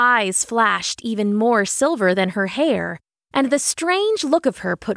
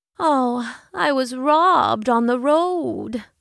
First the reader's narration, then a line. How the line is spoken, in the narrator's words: the woman said sadly